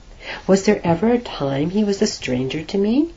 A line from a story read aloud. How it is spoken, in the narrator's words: asked Nearchus